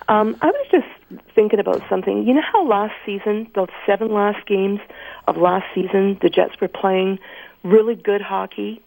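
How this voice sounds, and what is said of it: Voice affected by a cold. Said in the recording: “Got a bit of a cold, so please excuse my voice.”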